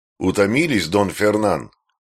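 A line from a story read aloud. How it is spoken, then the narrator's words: Plain. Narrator (Russian): спросил Диего Пераль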